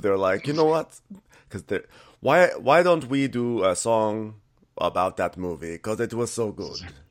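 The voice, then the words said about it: Put-on Swedish accent. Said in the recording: “my Swedish voice impersonation”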